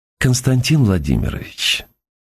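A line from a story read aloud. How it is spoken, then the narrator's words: Gentle, affectionate. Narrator (Russian): заговорил он ласково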